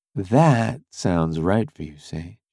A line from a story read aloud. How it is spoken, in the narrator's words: she said softly